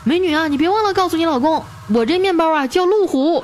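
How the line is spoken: Loud shout. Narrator (Chinese): 旁边那车主大声的喊

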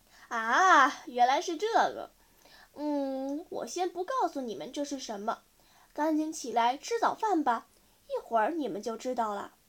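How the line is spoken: Laughing, amused. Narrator (Chinese): 姨妈听着笑个不停，半天才说话

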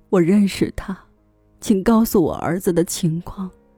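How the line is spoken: Old man sobbing. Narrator (Chinese): 帕维尔大伯抽泣道

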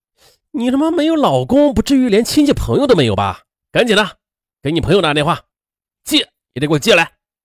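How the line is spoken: Angry. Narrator (Chinese): 愤怒地说

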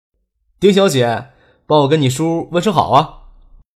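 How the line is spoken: Smiling. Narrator (Chinese): 笑着说

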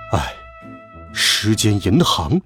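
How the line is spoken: Father, sighing. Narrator (Chinese): 爸爸叹了口气说道

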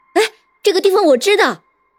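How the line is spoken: Startled woman exclaiming. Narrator (Chinese): 众游客中突然有个女的啊的一声叫了起来，然后说道

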